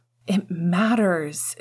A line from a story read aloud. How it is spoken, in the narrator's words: James said urgently